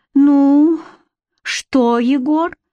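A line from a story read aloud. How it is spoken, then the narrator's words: Condescending sigh. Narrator (Russian): вздохнула Таня с интонацией покровительственно-снисходительной и оттого втройне унизительной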